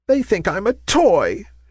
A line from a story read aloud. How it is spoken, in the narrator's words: she cried in dismay